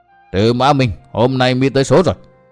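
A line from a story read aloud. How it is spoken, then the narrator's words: Snickering, furious voice. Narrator (Vietnamese): Sơn Đầu Hắc Quái cười hí hí, nói với giọng kinh giận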